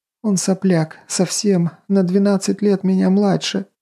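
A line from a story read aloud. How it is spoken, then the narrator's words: Sobbing. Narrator (Russian): всхлипывала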